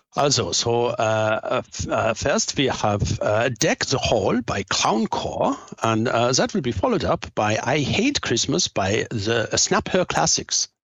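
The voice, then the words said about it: Put-on German accent. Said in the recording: “A German one. ... Beautifully done. And if there's any German people out there, we forgive our...”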